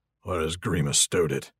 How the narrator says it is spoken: He muttered under his breath

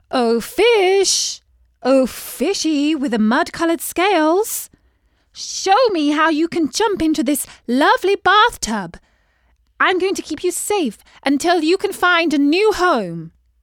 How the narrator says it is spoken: she called out

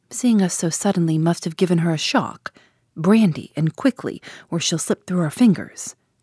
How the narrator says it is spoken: said sharply

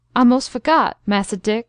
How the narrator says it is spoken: faltered Uncle Noah

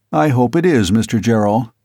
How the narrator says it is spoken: the detective said coldly

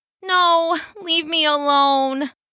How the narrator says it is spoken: moaned

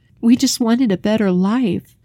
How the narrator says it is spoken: the wife pleaded as if before an executioner

